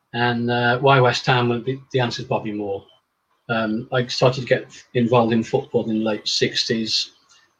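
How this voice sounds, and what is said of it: Northern English accent, not Cockney. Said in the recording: “I detect not much of a Cockney accent from you ... I'm a Northerner”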